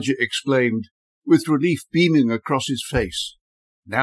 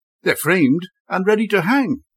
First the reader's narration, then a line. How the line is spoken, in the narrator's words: he said excitedly